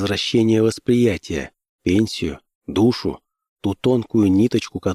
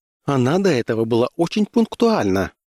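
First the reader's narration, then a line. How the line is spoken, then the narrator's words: Brisk young woman. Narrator (Russian): бодрым голосом ответила мне молодая дама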